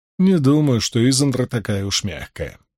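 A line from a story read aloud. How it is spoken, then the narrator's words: Calm objection. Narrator (Russian): спокойно возразил Ранд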